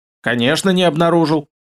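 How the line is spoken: Smug snort. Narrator (Russian): хмыкнул

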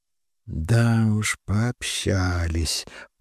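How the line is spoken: Muttered. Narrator (Russian): пробормотала Ольга

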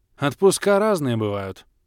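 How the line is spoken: Snorted. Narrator (Russian): фыркнул я

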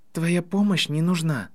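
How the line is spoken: Gentle remark. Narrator (Russian): мягко заметил Гарри

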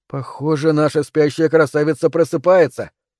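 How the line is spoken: Amused snort. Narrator (Russian): хмыкнул Тони

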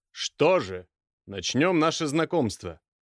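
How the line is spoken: Stern, loud, husky baritone. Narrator (Russian): Голос его звучит строго, громкий баритон с легкой хрипотцой

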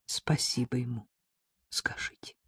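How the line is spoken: Quiet, polite tone. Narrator (Russian): тихо произнесла она, возвращаясь к вежливому

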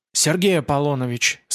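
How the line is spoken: Fading voice. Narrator (Russian): сказал Ян затихающим голосом

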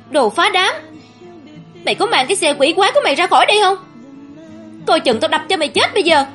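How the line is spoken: Shouting. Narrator (Vietnamese): Bình hét lên

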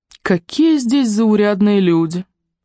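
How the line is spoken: Disappointed sigh. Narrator (Russian): с огорчением вздохнула Елена

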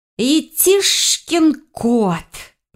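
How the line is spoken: Hissed. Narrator (Russian): прошипела я

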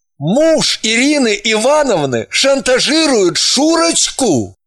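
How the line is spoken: Stunned exclamation. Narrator (Russian): Воскликнул ошарашенно

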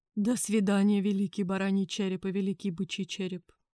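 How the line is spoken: Sad, from a chief. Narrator (Russian): печально произнес вождь Харьхай

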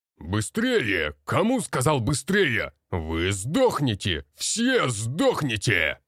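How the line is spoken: Instructor shouting. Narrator (Russian): Кричал Марков Роман Егорович, наш инструктор по боевой подготовке

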